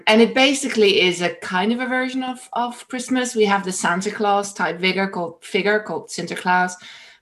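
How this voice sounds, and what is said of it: Dutch accent. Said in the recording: “Dutch, for those of you that have been trying to figure out my accent”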